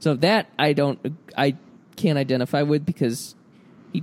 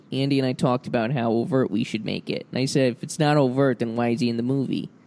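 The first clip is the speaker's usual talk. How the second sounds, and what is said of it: Imitates another person's voice. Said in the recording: “my Bill Hader impression”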